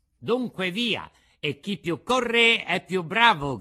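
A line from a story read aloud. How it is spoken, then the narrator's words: Shout. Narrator (Italian): gridò Pinocchio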